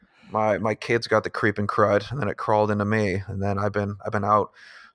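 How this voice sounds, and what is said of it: Raspy, gravelly sick voice. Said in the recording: “I apologize for my voice too... the voice. I've been a little bit sick, a little bit under the weather here... I sound like like Harvey Fierstein.”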